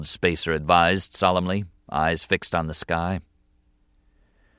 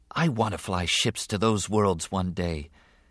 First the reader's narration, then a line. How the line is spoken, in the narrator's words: Anakin said softly